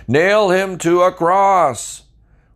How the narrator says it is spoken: they yelled all the louder

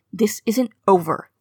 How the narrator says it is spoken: he spat

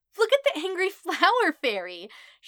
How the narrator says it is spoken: shrieks, snorts, and giggles from her glee

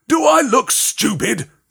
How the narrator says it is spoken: snarled Uncle Vernon

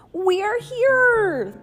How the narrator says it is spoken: they shouted

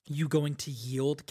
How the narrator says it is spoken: Kaladin growled

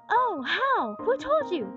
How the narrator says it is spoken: cried Joel eagerly

